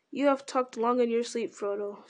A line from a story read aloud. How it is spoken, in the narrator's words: said Gandalf gently